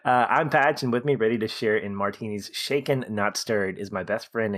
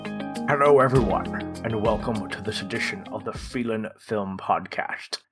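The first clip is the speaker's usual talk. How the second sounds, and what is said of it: Poor imitation of another person's voice. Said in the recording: “That's a terrible Sean Connery impression”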